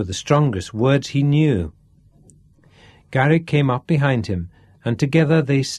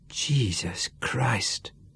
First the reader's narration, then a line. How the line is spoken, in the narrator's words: he whispered